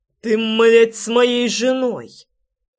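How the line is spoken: Growled. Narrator (Russian): прорычал я

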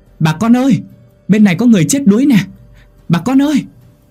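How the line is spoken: Shouting. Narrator (Vietnamese): hét lên

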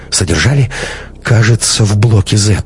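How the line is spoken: Rather uncertain. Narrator (Russian): сказал довольно неуверенно

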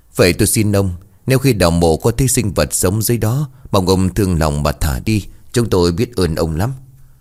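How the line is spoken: Sighing. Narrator (Vietnamese): Người kia thở dài lên tiếng

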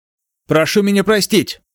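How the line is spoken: Quick shout. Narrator (Russian): быстро выкрикнул Ло Финхуа

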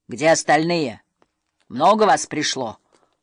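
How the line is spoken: Barked. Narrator (Russian): рявкнул Норберт Сумасброд

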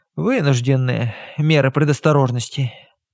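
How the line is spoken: Sighing. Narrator (Russian): вздохнула Горн

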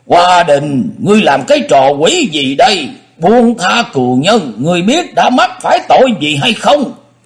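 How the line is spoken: Angry, loud. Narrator (Vietnamese): lão nhất thời nổi đóa lên, lớn tiếng nói

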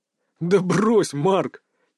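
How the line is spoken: Soft laugh. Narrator (Russian): тихо рассмеялся князь

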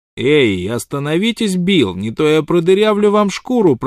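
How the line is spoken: Booming threat. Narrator (Russian): прогремел малыш

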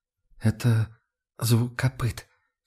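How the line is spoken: Barely audible. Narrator (Russian): чуть слышно проронила Лота

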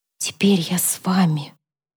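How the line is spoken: Whisper again. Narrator (Russian): еще раз прошептала

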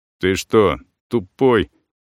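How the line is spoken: Through gritted teeth. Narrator (Russian): процедил сквозь зубы второй кузетовец

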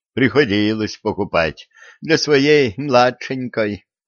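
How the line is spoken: Heavy sigh. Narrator (Russian): тяжко вздохнул Буйский

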